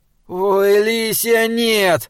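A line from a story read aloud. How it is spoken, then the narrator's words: Despairing moan. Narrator (Russian): простонал Саймон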